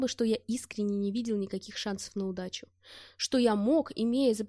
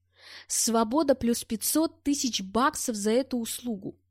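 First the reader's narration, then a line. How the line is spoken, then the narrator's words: Barking. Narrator (Russian): рявкнул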